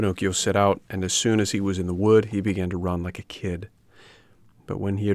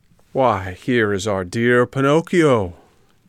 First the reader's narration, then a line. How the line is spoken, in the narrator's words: cried the fox